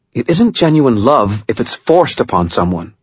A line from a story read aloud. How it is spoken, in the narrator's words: Murphy said, her tone harsh